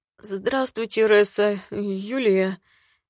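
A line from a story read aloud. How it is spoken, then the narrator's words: Hoarse, losing hope. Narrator (Russian): Севшим голосом поздоровался медовый, кажется, прощаясь с надеждой получить зелье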